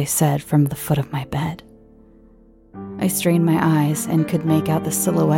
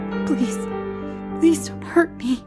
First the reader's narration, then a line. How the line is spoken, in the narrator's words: I choked out, feeling tears starting to swell up in my eyes